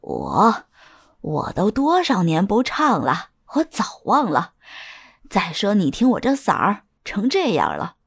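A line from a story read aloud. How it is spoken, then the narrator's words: Laughing. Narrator (Chinese): 沈兰君笑着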